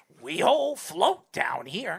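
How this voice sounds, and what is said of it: Poor impression of the It clown. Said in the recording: “Is that a good It, you know? ... No, that's a terrible impersonation. ... That would be it if his balls were, like, shoved up his throat.”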